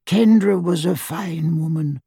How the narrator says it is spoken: whispered Doge miserably

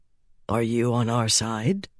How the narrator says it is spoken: he asked quietly

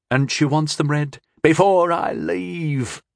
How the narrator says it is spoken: groaned the boy again

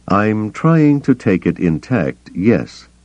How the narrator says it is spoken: Bel Iblis said slowly

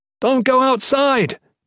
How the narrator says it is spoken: Jen yelled

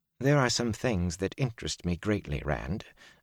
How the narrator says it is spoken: Varen said quietly

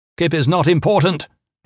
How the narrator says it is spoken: Gavin shouted

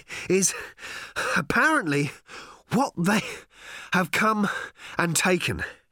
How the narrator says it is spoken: he was panting

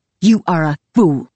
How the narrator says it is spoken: she spat

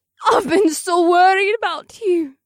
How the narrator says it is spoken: Darla sobbed

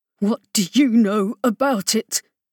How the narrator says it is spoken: demanded through clenched teeth

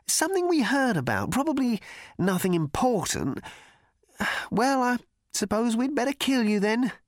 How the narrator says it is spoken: continued the cricketer uneasily

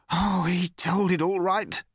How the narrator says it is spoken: said the man savagely

